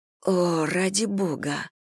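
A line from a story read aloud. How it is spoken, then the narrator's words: Mutter. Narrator (Russian): пробормотала Элли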